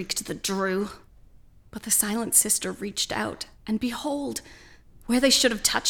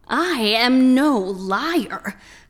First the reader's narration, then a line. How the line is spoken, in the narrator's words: howled the Drew